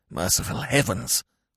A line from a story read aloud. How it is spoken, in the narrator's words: whispered Smith